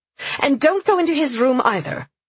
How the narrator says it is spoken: Sienna added sharply

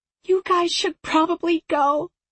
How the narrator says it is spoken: she said, her voice cracking

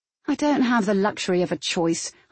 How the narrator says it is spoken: I said sulkily

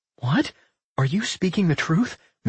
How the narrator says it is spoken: Millie gasped, her fury reversing in an instant

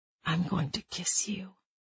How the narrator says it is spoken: he had whispered into her ear

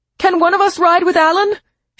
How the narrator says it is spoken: she yelled to Mike Wilson

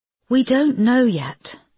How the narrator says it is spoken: sighed Rachel

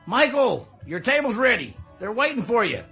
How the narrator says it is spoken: From inside the door, I heard someone shout

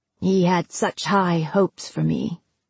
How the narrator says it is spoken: Finn said in a flat voice

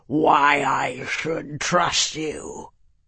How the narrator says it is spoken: he growled

